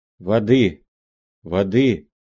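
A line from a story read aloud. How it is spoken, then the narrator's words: Hoarse voice. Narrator (Russian): говорила она хриплым голосом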